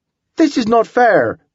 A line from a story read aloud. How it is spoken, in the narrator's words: shouted one of the Europeans